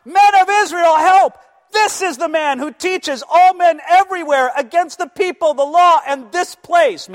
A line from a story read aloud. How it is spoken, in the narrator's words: The guys from Asia start screaming, crying out